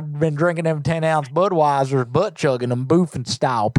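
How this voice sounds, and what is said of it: Southern redneck accent. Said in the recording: “I love your accent... I'm Redneck.”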